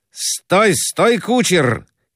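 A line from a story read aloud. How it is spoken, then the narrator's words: Shouting. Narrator (Russian): кричал Граблин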